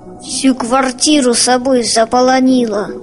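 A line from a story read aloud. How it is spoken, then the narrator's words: Father grumbling. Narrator (Russian): ворчал Борькин отец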